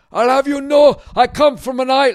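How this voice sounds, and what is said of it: Weak attempt at Scottish accent. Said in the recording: “let me try to do a bad Scottish ... I wish I could do a Scottish accent”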